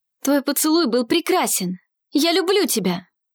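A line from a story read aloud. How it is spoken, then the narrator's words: Exclaiming. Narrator (Russian): воскликнул Арсений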